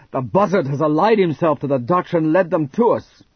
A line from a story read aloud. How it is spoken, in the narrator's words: His voice trembled with outrage